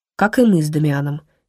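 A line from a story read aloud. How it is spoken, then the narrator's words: Martyred sigh. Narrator (Russian): мистер Гамильтон мученически вздохнул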